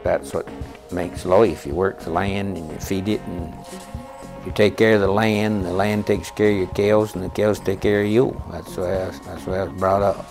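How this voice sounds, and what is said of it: New England accent. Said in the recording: “recognize this New England accent? ... We'll explore a vanishing sound.”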